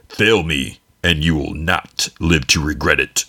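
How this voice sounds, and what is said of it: Bad Darth Vader impression. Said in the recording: “my Darth Vader impression, really bad”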